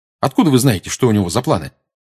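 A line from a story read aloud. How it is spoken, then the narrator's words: Quick question. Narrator (Russian): быстро спросил Гарри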